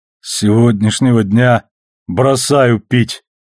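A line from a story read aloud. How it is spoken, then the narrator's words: Groaning. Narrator (Russian): простонал Амос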